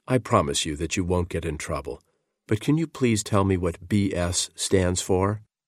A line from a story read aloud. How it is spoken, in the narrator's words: Amy calmly said to Katie